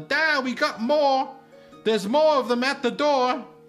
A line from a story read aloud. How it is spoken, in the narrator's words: screams over his shoulder